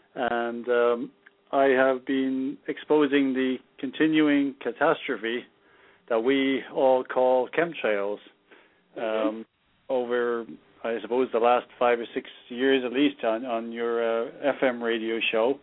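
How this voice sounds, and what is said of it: Irish accent. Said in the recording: “formerly from Ireland. You can probably tell by the accent.”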